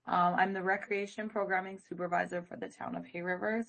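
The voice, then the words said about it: Voice sounds sick. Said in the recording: “Sorry about my voice. ... I've been sick for weeks.”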